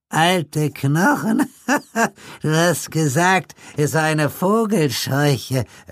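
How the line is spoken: Old man, giggling reply. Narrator (German): erwiderte der Alte kichernd

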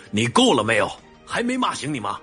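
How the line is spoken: Fierce angry roar. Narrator (Chinese): 叶明远见叶青言这副不要命的样子，顿时又厉吼了一声

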